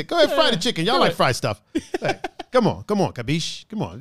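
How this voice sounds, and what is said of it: Put-on Italian gangster accent. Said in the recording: “like a Italian gangster accent... The old Italian accent... It's a fun voice”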